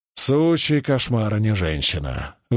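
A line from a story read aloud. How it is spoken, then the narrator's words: Exasperated exhale. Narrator (Russian): выдохнул Маркус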